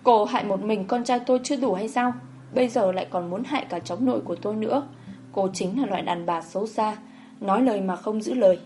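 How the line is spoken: Hysterical crying. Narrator (Vietnamese): Bà Quý mất khống chế khóc lóc nói

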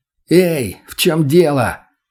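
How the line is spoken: Shouted. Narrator (Russian): крикнул я

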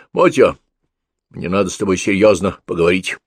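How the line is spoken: Stern. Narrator (Russian): строго сказал

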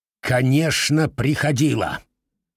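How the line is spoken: Sharp angry reply. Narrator (Russian): резко и зло ответил сэр Джулиус

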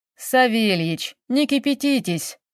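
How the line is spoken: Investigator speaking peaceably. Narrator (Russian): миролюбиво проговорил следователь

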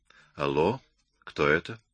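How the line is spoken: Quiet. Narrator (Russian): я тихо сказал

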